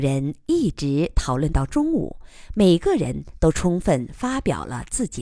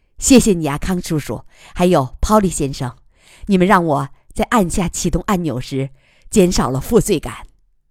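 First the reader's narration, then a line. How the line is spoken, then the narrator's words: Joking. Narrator (Chinese): 贺子洲也开玩笑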